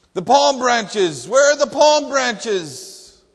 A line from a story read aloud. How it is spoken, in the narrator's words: he shouted